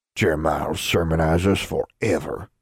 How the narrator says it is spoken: grumbled a man

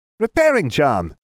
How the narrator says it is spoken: he squeaked

